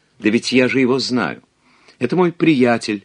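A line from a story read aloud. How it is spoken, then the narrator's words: Exclaiming woman. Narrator (Russian): воскликнула любовница Сен-Лу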